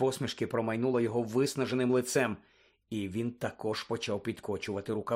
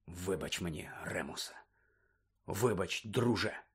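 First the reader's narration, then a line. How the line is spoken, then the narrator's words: Sighed. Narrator (Ukrainian): зітхнув Блек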